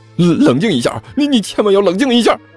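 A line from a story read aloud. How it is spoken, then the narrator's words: Shouting. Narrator (Chinese): 一边大喊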